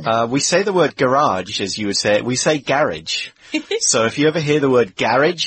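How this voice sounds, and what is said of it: British accent. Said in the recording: “has a great accent, different from mine. ... Yours is a British accent”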